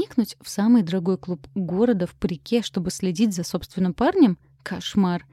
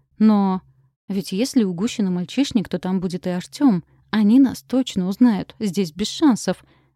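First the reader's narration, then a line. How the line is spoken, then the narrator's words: Exclaimed. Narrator (Russian): воскликнула я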